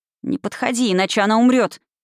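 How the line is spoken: Frightened hiss. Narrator (Russian): испуганно прошипел

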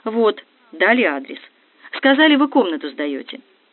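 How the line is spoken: Calm reply. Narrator (Russian): Арина ухитряется спокойно ответить

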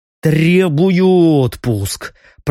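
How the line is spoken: Grumbling. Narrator (Russian): проворчал он

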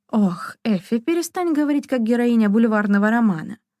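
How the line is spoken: Laughing. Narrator (Russian): рассмеялась Шона

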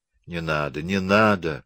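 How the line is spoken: Half-conscious moan. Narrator (Russian): простонал Александр почти в беспамятстве, закрывая лицо руками

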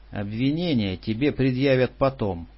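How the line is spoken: Calm. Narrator (Russian): спокойно произнес он

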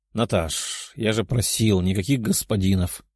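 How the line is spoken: Young man grumbling. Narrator (Russian): проворчал сидящий рядом парень

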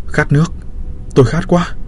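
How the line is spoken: Weak parched moaning. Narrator (Vietnamese): Vì mất hơi nhiều máu nên lúc này tôi thực sự khát nước, vô thức rên rỉ

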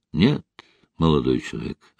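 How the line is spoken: Plain. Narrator (Russian): ответил врач

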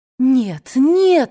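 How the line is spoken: Exclaimed. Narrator (Russian): воскликнула Мелани

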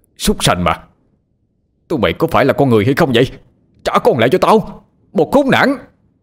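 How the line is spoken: Roaring man. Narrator (Vietnamese): Ông gầm lên

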